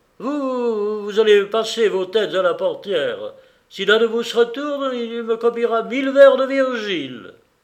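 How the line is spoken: Shouting. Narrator (French): il cria

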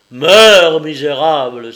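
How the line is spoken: Thunderous cry. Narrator (French): s'écria-t-il d'une voix de tonnerre

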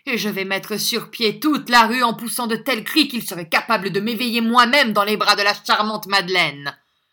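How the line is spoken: Shouting. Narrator (French): Cria Greed

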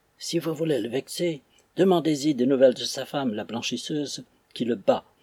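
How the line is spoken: Whispered in the ear. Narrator (French): me souffla à l'oreille un autre digne personnage, un porteur de torche retiré

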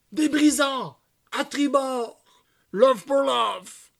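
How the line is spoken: Admiral shouting. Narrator (French): hurla l'amiral

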